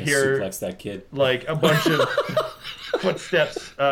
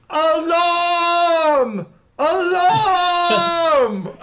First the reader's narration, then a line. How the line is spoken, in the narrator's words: an orphan up the stairs start yelling